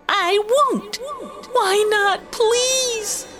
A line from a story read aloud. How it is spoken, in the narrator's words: the shouting match